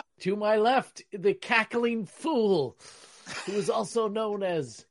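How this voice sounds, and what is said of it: Adam West impression. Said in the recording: “I think I just went into like an Adam West impersonation. I went from Shatner to Adam West.”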